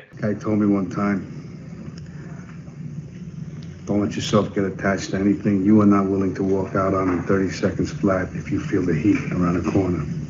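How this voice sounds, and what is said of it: Imitates another person's voice. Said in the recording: “let me just try this impression... I'm not great at impressions... that was my best impression of Al Pacino, which wasn't too bad... Uncanny.”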